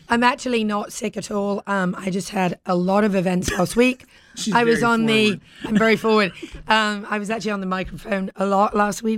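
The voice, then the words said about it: Husky, hoarse voice. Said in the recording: “I'm a little husky. I'm a little husky... forgive me for my voice this week... I lost my voice... I really lost my voice.”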